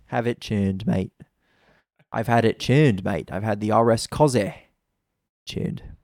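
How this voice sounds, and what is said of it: Poorly done put-on accent. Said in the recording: “That was a terrible accent.”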